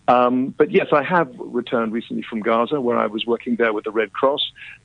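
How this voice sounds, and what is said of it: Distinctive accent. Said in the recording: “love his accent. Love it.”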